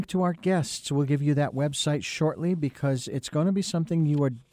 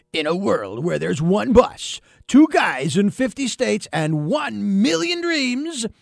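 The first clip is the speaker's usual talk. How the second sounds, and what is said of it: Movie trailer announcer voice. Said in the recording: “this sounds more like a promotion for a movie ... my best imitation of Don LaFontaine”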